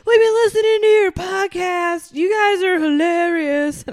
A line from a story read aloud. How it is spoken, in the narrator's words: he yelled